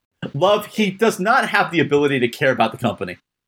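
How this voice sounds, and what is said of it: Put-on Midwestern American accent. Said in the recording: “I use my Midwestern accent”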